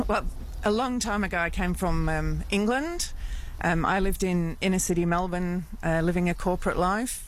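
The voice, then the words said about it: English accent. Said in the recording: “your accent”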